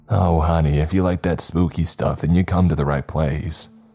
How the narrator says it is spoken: she claims with a chuckle

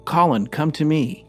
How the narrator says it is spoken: he called out

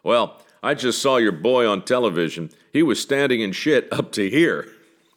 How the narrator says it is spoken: The elderly gentleman saying in a gruff, booming voice

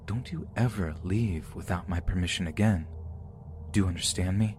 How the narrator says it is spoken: immediately whispered in my ear

